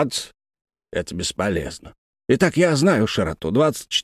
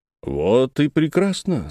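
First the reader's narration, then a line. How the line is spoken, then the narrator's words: Calm reply. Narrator (Russian): спокойно ответил Тригомен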